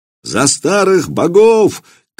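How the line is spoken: Shouted in unison. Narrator (Russian): кричала тогда Веча в изумительном единении с Владимиром и дядей его Добрыней

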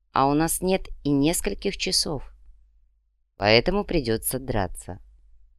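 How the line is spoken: Calm. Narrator (Russian): спокойно закончил третий

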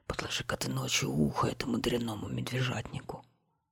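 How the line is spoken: Furious whisper. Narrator (Russian): чуть с трона не свалился от бешенства и зашептал

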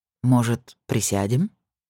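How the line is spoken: Soft. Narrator (Russian): мягко предложил он

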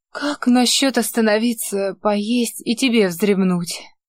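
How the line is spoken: Hoarse question. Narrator (Russian): сипло спросила она

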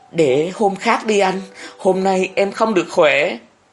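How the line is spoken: Pleading voice. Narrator (Vietnamese): An giọng van nài

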